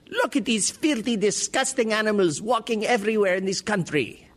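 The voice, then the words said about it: Poor put-on Egyptian-American accent. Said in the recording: “That's not a great Egyptian-American accent”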